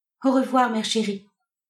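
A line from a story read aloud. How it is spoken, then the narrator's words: Stammered. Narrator (French): balbutia-t-elle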